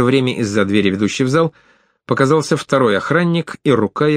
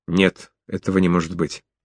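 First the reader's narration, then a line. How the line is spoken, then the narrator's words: Halting mutter. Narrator (Russian): осекся, запнулся на секунду, а затем пробормотал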